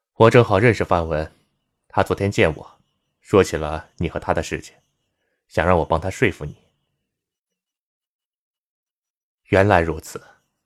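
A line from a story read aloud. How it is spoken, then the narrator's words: Faint smile, explaining. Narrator (Chinese): 齐全淡淡一笑，解释说道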